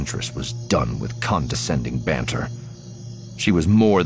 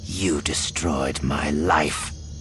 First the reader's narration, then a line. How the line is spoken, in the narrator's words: she snarled